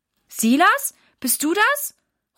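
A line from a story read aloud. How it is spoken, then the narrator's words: Calling out. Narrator (German): ruft Mama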